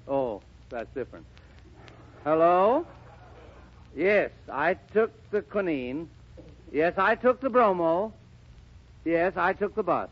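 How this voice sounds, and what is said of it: Congested voice with a cold. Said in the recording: “I have a cold. ... Got a cold, huh?”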